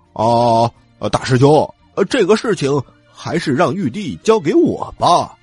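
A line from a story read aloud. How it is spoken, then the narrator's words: Loud. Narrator (Chinese): 他大声的说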